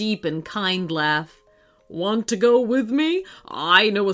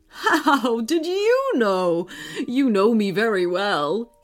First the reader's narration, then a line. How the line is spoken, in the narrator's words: He laughed